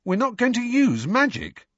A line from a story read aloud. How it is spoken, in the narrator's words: Ron exclaimed loudly